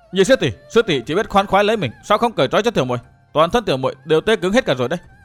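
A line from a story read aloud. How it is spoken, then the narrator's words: Impatient cry. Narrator (Vietnamese): Sử Hắc Thanh không nhìn được la lên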